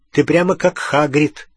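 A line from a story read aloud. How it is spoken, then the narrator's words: Snorting. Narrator (Russian): фыркнул Рон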